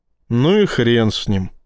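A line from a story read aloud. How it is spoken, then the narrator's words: Sighing. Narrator (Russian): вздохнул Рашин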